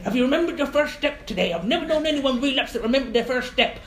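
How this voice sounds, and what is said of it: Poor put-on Irish accent. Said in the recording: “Bad Irish accent, really bad.”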